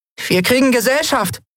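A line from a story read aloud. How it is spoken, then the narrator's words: Called out. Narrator (German): rief sie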